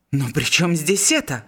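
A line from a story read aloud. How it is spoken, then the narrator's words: Exclamation. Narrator (Russian): воскликнул Жиль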